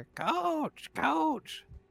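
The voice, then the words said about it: Yelling. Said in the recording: “when I'm yelling coach”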